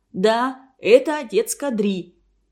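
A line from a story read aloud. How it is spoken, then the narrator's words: Loud, carrying across room. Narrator (Russian): Урмас уже громко на весь класс сказал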